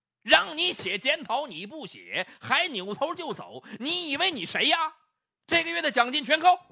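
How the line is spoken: Loud angry shout. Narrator (Chinese): 刘飞就大声吼起来了

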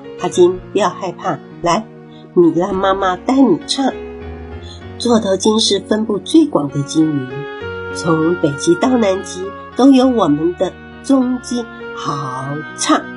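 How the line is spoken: Gentle, tender. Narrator (Chinese): 米拉妈妈温柔的说

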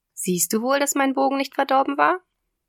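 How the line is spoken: Loud laughter. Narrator (German): sagte, lachte laut auf

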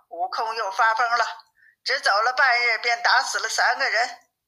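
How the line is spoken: Laughing. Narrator (Chinese): 八戒又笑道

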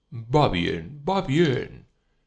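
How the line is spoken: Cheerful exclamation. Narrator (Spanish): exclamó alegremente Zosimov

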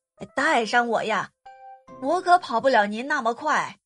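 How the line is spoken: Loud cry. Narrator (Chinese): 青蛙大声叫道

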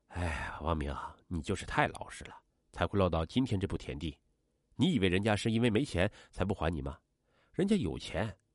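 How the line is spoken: Sighing. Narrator (Chinese): 徐山峰一边叹息 说

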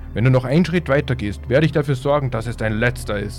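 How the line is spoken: Roared. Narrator (German): brüllte Jock

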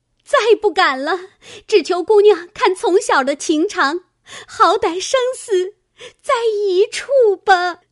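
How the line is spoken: Tearful pleading. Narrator (Chinese): 入画 哭求说

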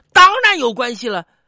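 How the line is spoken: Anxious, loud. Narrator (Chinese): 胖子急了，大声说

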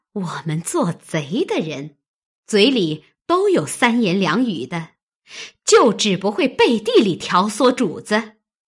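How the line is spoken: Sneering laugh. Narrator (Chinese): 探春冷笑道

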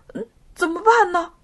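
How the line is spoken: Frightened hurried question. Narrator (Chinese): 山羊一下子吓懵了，急忙向他的好朋友梅花鹿问道

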